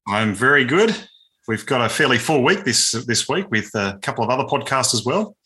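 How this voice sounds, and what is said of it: Australian accent. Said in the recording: “with an Aussie perspective... And an Aussie accent”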